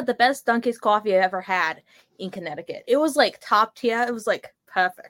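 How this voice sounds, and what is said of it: Strong Boston accent. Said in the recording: “do you want to tone down the Bostonian a tad? ... Have to suppress the accent.”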